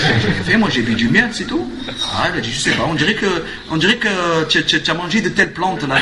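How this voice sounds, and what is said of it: Usual voice. Nothing is said of it.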